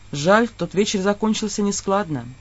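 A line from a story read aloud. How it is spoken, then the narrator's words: Very quiet addition. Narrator (Russian): совсем тихо добавил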